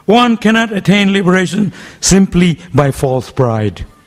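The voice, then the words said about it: Raised, louder voice. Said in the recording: “raising my voice”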